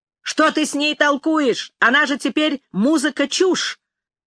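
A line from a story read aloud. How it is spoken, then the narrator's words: Distant shout. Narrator (Russian): Павлуша крикнул с другого конца коридора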